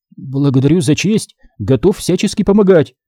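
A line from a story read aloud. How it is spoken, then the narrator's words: Frightened dwarf's babble. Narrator (Russian): залепетал посеревший от страха карлик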